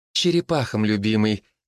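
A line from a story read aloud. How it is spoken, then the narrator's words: Soft correction. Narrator (Russian): мягко поправила Лола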